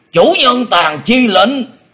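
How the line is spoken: Thunderous shout. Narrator (Vietnamese): Đột quát chấn động cả rừng cây im liệm

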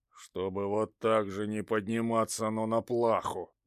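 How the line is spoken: Grumbled. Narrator (Russian): пробурчал Василий Иванович

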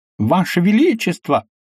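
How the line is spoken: Beside himself, exclaiming. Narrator (Russian): вне себя воскликнул Огильви

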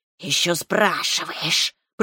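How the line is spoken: Displeased hiss. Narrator (Russian): прошипела змея недовольно

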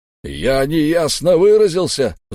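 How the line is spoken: Roaring. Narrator (Russian): взревел Дувал

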